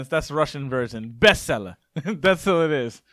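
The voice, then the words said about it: Mock Russian accent, sounding Jamaican. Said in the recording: “that Russian sounded kind of Jamaican”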